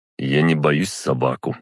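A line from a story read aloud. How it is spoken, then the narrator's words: Calm. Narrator (Russian): спокойно сказал я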